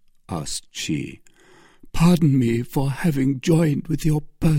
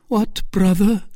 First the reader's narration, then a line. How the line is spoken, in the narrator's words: cried Milady